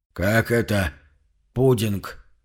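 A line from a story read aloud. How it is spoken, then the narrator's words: Hoarse question. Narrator (Russian): хрипло поинтересовался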